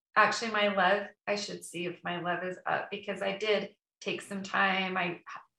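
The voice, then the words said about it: Voice sounds sick. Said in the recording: “you could probably hear it in my voice ... because I was sick”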